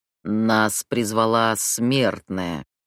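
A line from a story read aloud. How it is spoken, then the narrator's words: King growling. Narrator (Russian): прорычал король ифритов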